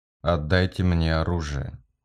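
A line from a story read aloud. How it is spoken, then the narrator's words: Bored voice. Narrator (Russian): скучным голосом сказал Кариган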